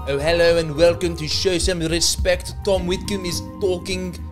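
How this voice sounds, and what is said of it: Shaky put-on South African accent. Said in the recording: “He did not spend too much time working on this South African accent ... I'm crossing over with Scottish a lot in my attempt to do a South African accent”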